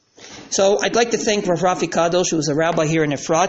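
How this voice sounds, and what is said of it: New York accent. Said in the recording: “as you can hear from the New York accent.”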